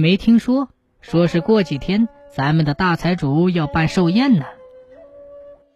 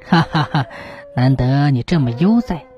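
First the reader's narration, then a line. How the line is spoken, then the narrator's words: Scholar laughing. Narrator (Chinese): 书生笑道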